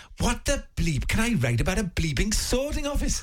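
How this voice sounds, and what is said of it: Weak Welsh accent, grumpy old man. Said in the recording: “a sort of grumpy old Welshman ... Welsh, you say? ... You've got to put a bit more effort into the accents”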